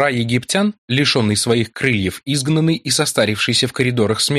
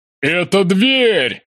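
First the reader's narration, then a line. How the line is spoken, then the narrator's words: Shouting over roaring noise. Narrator (Russian): Дрейк кричал мне на ухо, чтобы я услышал в урагане звуков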